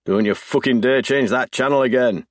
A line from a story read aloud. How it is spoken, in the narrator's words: he barks